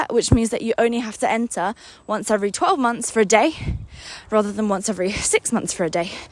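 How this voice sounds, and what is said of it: Breathless, puffing and panting speech. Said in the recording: “Wow, I'm out of breath. You guys are literally hearing me puffing and panting”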